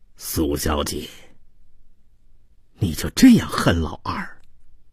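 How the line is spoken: Sighing. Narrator (Chinese): 马水清叹道

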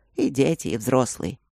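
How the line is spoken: Sad. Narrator (Russian): печально кивнул Оби

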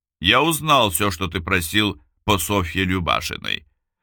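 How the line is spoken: Plain. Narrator (Russian): сказал Бабкин

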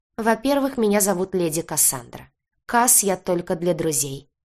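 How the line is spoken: Cold young woman. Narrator (Russian): холодно произнесла девушка

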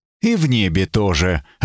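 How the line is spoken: Dry reply. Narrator (Russian): ответил Эбергард сухо

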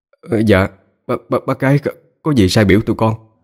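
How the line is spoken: Stammering. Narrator (Vietnamese): Anh Tám lắp bắp

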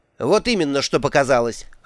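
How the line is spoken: Barking female. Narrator (Russian): рявкнула она

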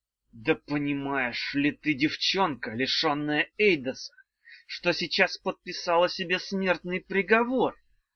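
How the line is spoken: Hissed. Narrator (Russian): прошипел

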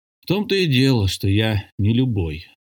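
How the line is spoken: Sighing. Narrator (Russian): вздохнул Тревельян

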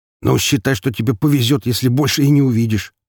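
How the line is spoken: Grumbled. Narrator (Russian): проворчал второй

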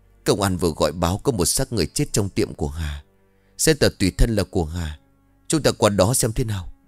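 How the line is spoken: Trembling announcement. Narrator (Vietnamese): run rẩy báo tin

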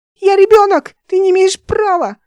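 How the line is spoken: Frightened shriek. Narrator (Russian): Ника завизжала, когда он бросил ее в море

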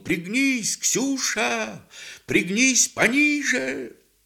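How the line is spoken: Shouted while riding. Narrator (Russian): Григорий ... поравнявшись, крикнул

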